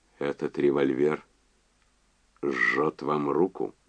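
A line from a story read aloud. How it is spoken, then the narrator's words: Low pleasant voice. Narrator (Russian): Энди сказал низким приятным голосом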